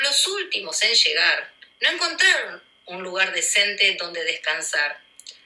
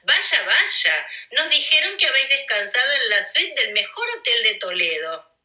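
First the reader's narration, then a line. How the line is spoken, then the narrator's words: Mocking laughing voice. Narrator (Spanish): dijo uno con sorna entre risas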